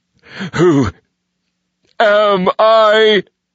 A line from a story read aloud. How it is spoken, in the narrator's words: Vengeance cried